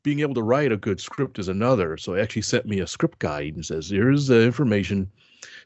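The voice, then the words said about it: Soothing radio voice. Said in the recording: “Bring that radio voice of yours. Exactly. It's so soothing.”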